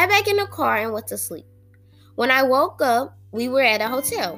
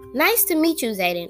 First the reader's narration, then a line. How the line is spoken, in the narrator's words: said